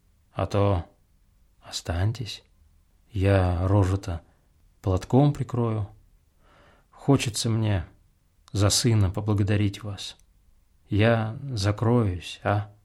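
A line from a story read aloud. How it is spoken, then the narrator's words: Warm, tender speech. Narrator (Russian): Она говорила неотразимо по-человечье, так ласково, с таким хорошим чувством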